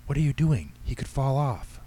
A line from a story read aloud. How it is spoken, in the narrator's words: She hissed